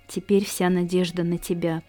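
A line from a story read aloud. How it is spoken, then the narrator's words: Muttering. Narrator (Russian): пробормотала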